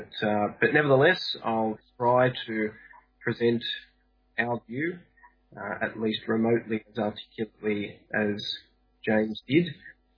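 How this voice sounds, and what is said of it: Australian accent. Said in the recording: “the Australian accent is incredibly hard to discern”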